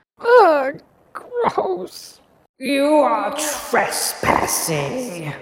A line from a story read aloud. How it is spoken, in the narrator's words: the sandwich bellowed